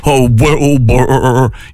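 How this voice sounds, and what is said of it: Imitates a TV talking horse's voice. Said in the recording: “That's my Mr. Ed impersonation.”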